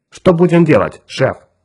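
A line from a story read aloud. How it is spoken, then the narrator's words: Firm question. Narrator (Russian): твердым голосом спросил Джонни Кирк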